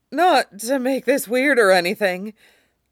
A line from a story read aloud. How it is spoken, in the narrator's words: Marco choked out